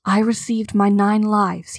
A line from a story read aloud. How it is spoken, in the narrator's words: he whispered